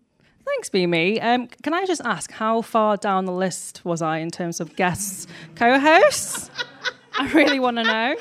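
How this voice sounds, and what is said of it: Manchester-area English accent. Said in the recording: “I come from Manchester, in case you can't tell by my accent, actually Warrington”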